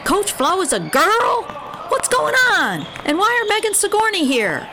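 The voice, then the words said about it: Alarmed voice. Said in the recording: “in an alarming voice”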